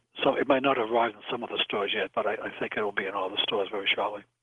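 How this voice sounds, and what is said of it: Boston accent. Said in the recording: “that Bostonian accent of yours”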